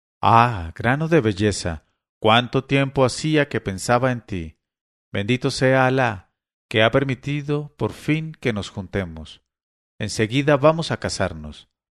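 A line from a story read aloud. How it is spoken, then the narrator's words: Woman's trembling voice. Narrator (Spanish): una figura de mujer le dijo con voz trémula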